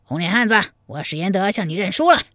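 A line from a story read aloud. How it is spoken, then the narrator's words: Loud. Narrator (Chinese): 史延德没脸再打下去…高声说道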